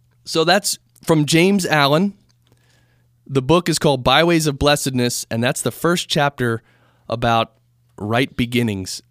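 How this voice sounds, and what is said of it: Scratchy voice. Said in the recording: “My voice is a little scratchy.”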